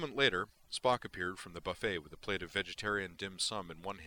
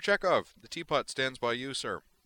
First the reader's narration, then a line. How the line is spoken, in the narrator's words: added brightly